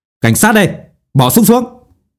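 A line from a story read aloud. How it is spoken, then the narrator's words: Thunderous roar at door. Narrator (Vietnamese): Một giọng nói như tiếng sấm gầm vang lên ở cửa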